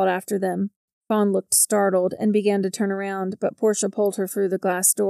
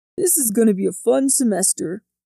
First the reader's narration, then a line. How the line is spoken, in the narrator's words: Jordan said with a chuckle